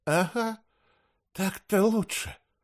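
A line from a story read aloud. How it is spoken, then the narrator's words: Whisper. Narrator (Russian): шепнул мне Автарх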